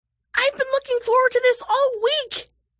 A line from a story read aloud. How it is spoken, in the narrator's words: shrieked Isha